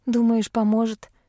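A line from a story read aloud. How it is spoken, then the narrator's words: Sighing. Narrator (Russian): вздохнула я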